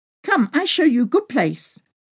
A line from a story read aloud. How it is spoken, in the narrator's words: pleaded